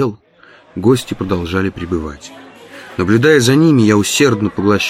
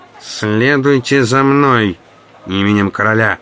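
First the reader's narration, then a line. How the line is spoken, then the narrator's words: Nasal voice in ear. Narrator (Russian): прогнусавил мне в ухо чей-то голос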